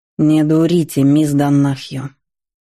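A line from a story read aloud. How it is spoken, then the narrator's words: Icy male voice. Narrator (Russian): ледяным голосом произнес стоявший подле меня мужчина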